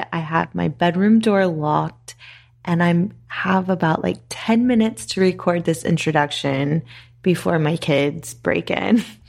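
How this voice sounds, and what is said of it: Whispering. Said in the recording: “if it sounds like I'm whispering, it's because I am”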